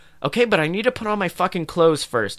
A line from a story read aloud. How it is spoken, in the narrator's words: I shouted angrily